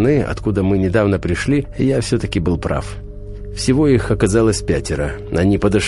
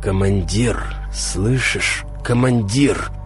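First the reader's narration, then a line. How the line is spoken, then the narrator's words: Hoarse wheeze. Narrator (Russian): просипел я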